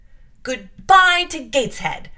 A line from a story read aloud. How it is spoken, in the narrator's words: cried